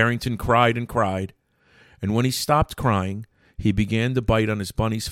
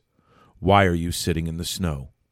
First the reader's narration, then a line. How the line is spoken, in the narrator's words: he asked in a gentle voice